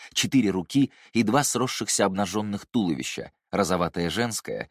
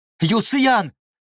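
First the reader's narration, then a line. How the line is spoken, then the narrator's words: Shouted out. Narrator (Russian): выкрикнул Яньши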